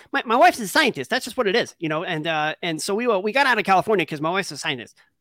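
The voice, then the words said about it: Ben Shapiro impression. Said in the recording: “do the Ben Shapiro voice. ... That's enough Ben Shapiro for you.”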